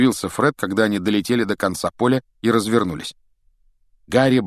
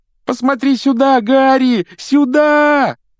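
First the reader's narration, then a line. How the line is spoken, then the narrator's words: Desperate yell. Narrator (Russian): отчаянно завопил Колин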